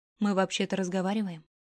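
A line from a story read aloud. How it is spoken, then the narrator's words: Cold. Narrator (Russian): Холодно сказала Рунами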